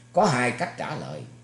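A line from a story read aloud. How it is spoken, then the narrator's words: Loud cackling laugh. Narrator (Vietnamese): Lam Trọng Khôi cười phá lên hăng hắc nói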